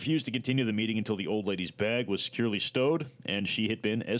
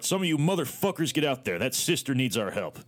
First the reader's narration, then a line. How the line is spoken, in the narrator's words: barked